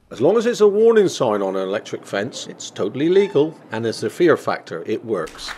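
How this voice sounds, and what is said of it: Speaks with a distinctive accent. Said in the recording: “if he says it in that accent, it sounds true”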